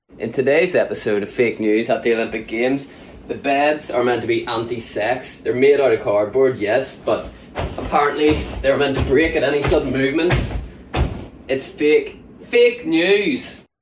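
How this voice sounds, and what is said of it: Irish accent. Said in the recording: “the Irish gymnast ... It's a solid accent.”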